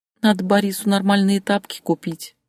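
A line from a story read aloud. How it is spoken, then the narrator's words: Sighed. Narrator (Russian): вздохнула Татьяна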